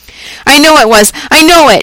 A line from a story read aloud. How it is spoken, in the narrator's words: she said wildly